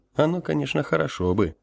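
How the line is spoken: Wry snort. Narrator (Russian): хмыкнул я

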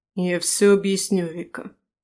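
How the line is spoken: Through gritted teeth. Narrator (Russian): садит сквозь зубы

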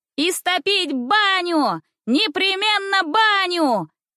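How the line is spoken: Shouting. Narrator (Russian): кричали

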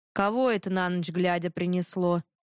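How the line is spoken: Snorted. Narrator (Russian): фыркнул батюшка

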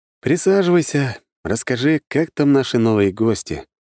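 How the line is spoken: Tired sigh. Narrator (Russian): Устало вздохнул я

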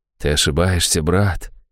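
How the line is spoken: Quiet objection. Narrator (Russian): тихо возразил он

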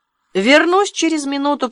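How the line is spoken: Shout. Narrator (Russian): прокричал Уилл

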